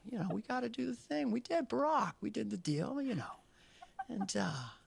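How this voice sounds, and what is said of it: Dana Carvey impersonating the president. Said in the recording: “Dana Carvey doing an impression of our current president ... he's pretty spot on. It's pretty good.”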